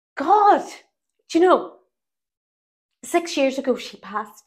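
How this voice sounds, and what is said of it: Emotional, close to tears. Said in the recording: “Now I'm getting emotional ... I don't really cry”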